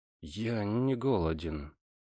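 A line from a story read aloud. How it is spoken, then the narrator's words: Strained mumble. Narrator (Russian): с трудом пробормотал я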